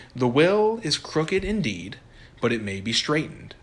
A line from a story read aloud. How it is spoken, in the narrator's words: said Experience